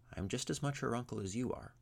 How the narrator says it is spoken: said Ivar calmly

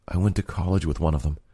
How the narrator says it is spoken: Lydia said quietly

